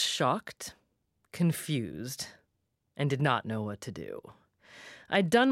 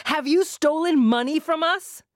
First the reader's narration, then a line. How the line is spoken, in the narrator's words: she shouted again